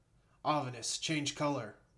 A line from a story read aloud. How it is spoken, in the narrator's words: exclaimed